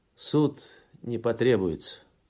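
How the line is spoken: Calm objection, young man. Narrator (Russian): спокойно возразил парень

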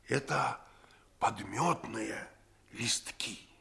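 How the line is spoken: Triumphant whisper in ear. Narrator (Russian): Я победоносно прошептал ему в ухо

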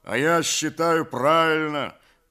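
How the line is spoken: Deep bass voice. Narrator (Russian): басил Кондрат

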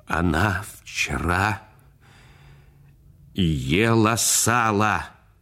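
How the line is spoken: Trembling voice. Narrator (Russian): дрожащим голосом сказал, обращаясь к отцу

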